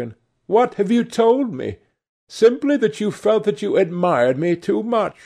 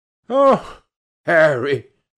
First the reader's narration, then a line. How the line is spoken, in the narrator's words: cried the lad with a ripple of laughter